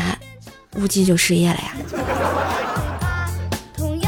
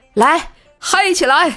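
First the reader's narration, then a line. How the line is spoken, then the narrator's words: Loud shout. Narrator (Chinese): 无忌……大喊道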